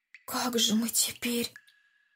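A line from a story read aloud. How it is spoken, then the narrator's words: Whisper. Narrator (Russian): Шепотом сказал Андрей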